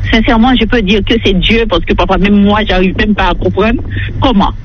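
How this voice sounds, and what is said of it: Non-native French accent. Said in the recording (French): “le fait que j'ai un accent aussi, je cherche mes mots de français”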